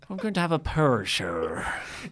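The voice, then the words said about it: Put-on Northern Irish accent. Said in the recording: “Is that how you're going to talk the entire time? ... I don't even know if this is an Irish accent. ... Or a Northern Irish accent.”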